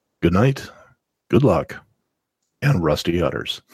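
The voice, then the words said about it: Radio announcer voice. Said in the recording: “I could do my radio voice here.”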